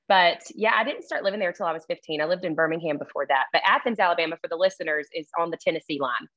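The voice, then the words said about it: Thick Southern US accent. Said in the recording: “my accent is thick. It's known for thick accents... slow Southern talk”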